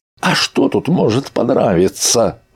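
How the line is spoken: Exclaimed. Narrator (Russian): воскликнул Архангел

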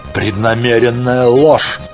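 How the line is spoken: Hateful shout. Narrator (Russian): Кордовир выкрикнул эти святотатственные слова, кипя от ненависти к пришельцам

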